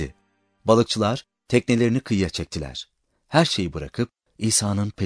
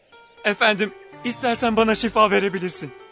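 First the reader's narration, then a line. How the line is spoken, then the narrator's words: Pleading. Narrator (Turkish): diye yalvardı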